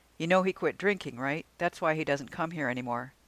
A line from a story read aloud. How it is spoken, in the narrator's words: Katie said quickly